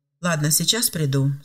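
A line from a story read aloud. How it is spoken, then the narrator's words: Calm reply. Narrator (Russian): спокойно ответил Филипп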